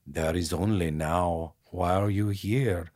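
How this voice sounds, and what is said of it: Poor imitation, Austrian accent. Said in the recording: “his weird Austrian gremlin accent ... a little bit Werner Herzog ... I'm doing it terrible”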